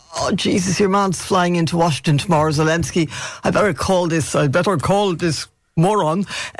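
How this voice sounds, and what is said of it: Impression of Vladimir Putin. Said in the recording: “my Putin impersonation”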